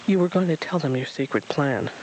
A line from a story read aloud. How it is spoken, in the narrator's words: the stranger said